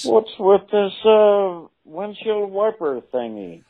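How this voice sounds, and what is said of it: Jerry Seinfeld impression. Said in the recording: “That's got to be Jerry Seinfeld ... this impression's too good ... Do your voice again”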